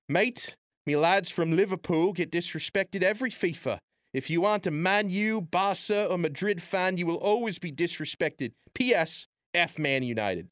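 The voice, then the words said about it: Put-on British accent. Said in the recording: “I imagine him typing this in a British accent”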